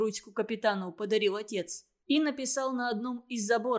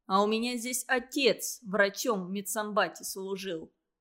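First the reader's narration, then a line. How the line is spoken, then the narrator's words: Plain. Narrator (Russian): сказал профессор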